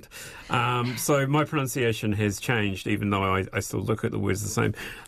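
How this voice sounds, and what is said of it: New Zealand accent. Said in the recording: “now I have my New Zealand accent”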